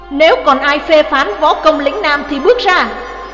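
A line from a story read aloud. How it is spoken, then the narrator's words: Shrill shout. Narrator (Vietnamese): Phương Dung quát lên lanh lảnh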